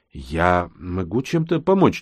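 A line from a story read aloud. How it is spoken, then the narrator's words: Uncertain, sheepish question. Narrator (Russian): неуверенно спросил я, чувствуя себя почему-то глупо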